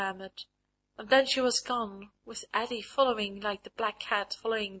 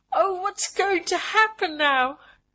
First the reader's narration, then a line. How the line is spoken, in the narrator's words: she cried